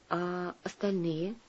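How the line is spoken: Quiet question. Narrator (Russian): тихо спросила Сусанна

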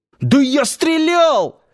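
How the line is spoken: Yelling. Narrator (Russian): завопил

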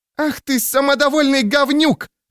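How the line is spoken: Female yelling. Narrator (Russian): завопила она

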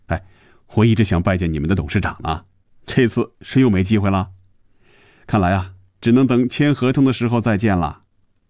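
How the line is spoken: Joking. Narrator (Chinese): 又开着玩笑

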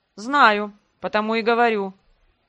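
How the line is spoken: Insolent snort. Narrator (Russian): фыркнул этот наглый тип

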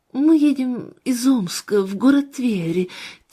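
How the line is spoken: Woman, heavy sigh. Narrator (Russian): тяжело вздохнула женщина

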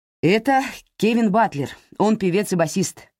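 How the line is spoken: Excited. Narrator (Russian): взволнованно начал Лука

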